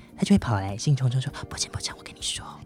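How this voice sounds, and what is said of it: Speaking too quietly. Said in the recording (Chinese): “太小声了，听众听不到”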